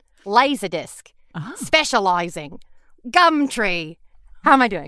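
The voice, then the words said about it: Put-on Australian accent. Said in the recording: “How's my Australian accent? ... That is really good. It's good in what I would consider like kind of a, you know, cheap comedy way”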